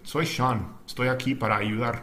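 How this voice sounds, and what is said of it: Spanish with a gringo American accent. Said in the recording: “in my little gringo accent”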